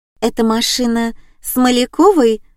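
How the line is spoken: Timid girl's question. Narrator (Russian): робко спросила одна из девчонок

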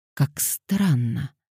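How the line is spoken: Muttering. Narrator (Russian): пробормотала она

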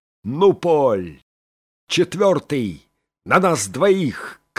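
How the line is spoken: Shouting. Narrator (Russian): крикнул Сорвиголова

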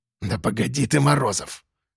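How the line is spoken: Conciliatory mutter. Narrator (Russian): уже примирительно пробормотал Кулебякин

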